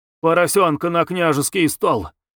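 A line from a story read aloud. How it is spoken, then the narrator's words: Gruff mutter, cook. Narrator (Russian): буркнула кухарка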